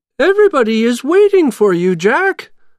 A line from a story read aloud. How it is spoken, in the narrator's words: the mayor said happily